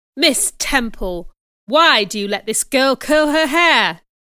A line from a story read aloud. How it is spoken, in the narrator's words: he asked angrily